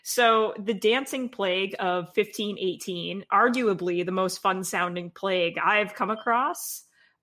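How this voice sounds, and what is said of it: Smiling, excited voice. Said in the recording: “I can hear the smile in your voice.”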